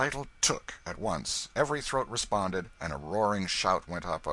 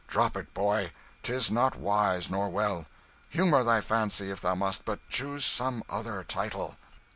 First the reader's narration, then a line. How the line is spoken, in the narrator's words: the ruffler said, firmly, but with an accent of good nature